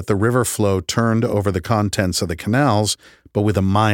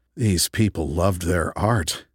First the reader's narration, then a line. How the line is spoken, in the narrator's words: I said in a hushed voice